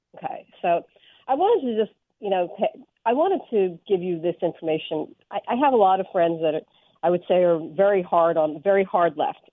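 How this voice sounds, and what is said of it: Congested voice with a cold. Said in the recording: “I am sick. I have a cold,”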